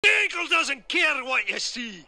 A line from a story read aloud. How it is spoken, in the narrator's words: <laughs> and <laughs> shouts